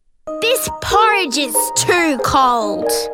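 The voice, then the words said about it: British accent. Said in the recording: “I like her accent. British? ... that was definitely British.”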